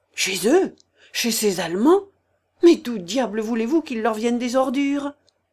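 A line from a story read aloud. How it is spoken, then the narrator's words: Brisk reply. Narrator (French): répondit vivement Zaccar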